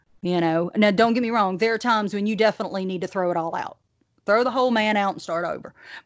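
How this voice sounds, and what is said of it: Thick Southern US accent. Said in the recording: “I just realized how thick my Southern accent got right there”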